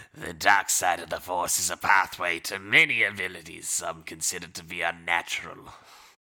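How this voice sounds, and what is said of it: Sith villain voice. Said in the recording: “in his Sith voice”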